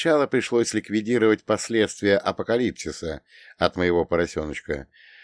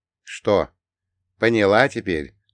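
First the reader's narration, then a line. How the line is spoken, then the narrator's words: Weary. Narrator (Russian): устало произнес я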